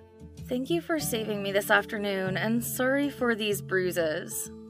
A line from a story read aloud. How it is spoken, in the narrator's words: she suddenly fell silent and mumbled